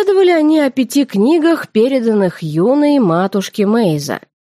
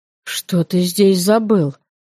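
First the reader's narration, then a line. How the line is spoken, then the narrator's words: Hoarse, raspy question. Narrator (Russian): Почему-то сипло, словно простуженно, спросила я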